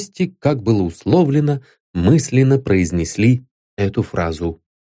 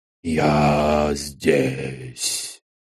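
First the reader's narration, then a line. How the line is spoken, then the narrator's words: Sleepy mumble, strange voice. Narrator (Russian): Во сне пробормотал медиум каким-то чужим, не своим голосом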